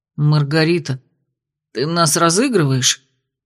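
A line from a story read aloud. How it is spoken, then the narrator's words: Breathed out after pause. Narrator (Russian): выдохнул после паузы Джим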